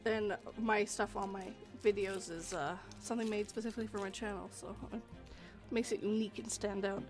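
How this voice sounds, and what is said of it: Voice not fully recovered, strained. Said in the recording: “my voice isn't completely... my voice isn't completely back yet”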